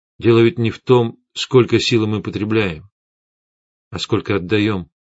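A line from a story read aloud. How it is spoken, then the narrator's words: Plain. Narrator (Russian): сказал я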